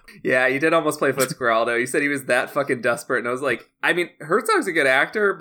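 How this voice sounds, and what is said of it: Usual voice. Nothing is said of it.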